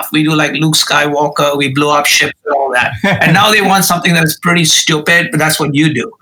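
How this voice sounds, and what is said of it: Indian accent. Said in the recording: “I speak with an Indian accent”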